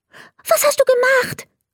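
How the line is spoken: Very excited question. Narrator (German): fragte er ganz aufgeregt

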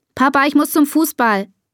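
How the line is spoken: Called. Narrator (German): ruft Bea

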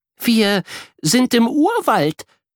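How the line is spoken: Excited speech. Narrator (German): sagt sie aufgeregt

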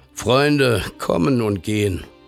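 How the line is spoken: Father speaking wearily. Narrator (German): Der Vater blickte müde auf und sprach

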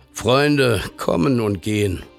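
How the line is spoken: Tired father speaking. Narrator (German): Der Vater blickte müde auf und sprach

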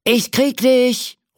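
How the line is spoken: Calling out. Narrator (German): ruft der Cowboy

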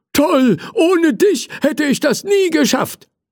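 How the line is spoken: Grateful shout. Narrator (German): rief der Feuerwehrmann dankbar

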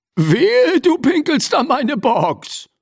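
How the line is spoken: Booming voice. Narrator (German): polterte eine Stimme

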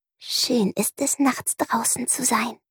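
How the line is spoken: Soft whisper. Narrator (German): Prinzessin Ringelsocke flüsterte leise

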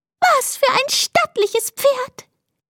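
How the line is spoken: Squeaky female voice. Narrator (German): piepste eine Mäusedame

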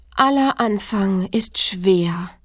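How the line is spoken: Sighed. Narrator (German): seufzte es

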